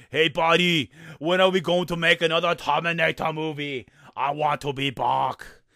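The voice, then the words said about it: Arnold Schwarzenegger impression accent. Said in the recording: “I apologize for that accent.”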